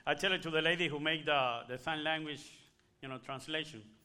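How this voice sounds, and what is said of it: Spanish accent. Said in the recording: “you find a Spanish accent, right? ... with a Spanish accent ... I am Cuban”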